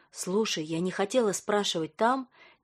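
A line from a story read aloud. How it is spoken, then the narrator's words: Quiet. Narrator (Russian): тихо сказала Ника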